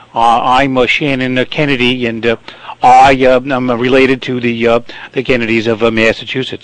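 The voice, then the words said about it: Put-on Massachusetts accent impression. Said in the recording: “the Shannon Kennedy voice, you may want to actually speak like this ... You do that well, actually ... speak like that ... do a Kennedy impression”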